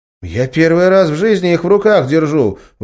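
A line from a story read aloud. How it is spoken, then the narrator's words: Surprised exclamation. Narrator (Russian): воскликнул поисковик, удивленно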